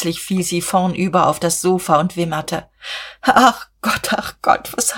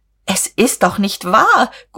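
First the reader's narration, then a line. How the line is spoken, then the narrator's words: Shrieking. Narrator (German): Guste kreischte auf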